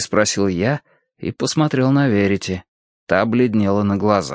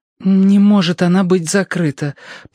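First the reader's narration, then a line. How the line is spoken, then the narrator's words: Disbelieving babble. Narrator (Russian): пролепетала Верити с недоверием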